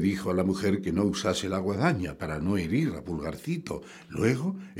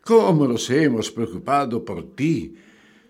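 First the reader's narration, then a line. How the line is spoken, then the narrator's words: Father exclaiming. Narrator (Spanish): exclamó el padre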